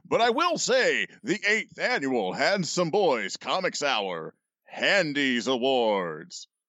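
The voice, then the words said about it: Announcer voice. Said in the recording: “do the announcer voice”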